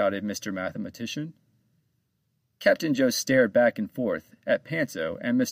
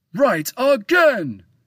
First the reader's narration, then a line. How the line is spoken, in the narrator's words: shouted Mr